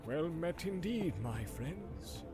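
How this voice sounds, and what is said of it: Soft-voiced old man. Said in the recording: “in a soft voice”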